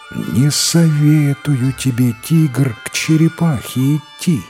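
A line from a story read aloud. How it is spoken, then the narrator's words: Heavy sigh, speaking. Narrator (Russian): Сосна опять тяжело вздохнула и говорит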